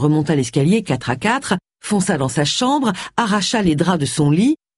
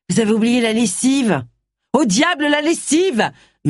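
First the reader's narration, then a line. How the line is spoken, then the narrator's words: Yelled. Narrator (French): hurla Agatha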